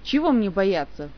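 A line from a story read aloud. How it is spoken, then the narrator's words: Indignant denial. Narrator (Russian): возмущенно опровергла гнусные подозрения Ольга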